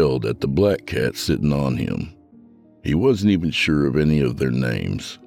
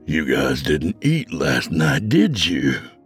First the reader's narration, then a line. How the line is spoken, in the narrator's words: Frank growled at them